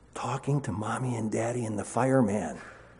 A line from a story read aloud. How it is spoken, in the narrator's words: came from the whispered voice